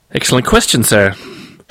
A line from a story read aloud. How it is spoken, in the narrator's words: she said, her voice quieter, but also sharper